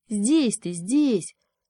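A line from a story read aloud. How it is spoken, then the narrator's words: Young beaver grumbling reply. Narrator (Russian): проворчал в ответ бобренок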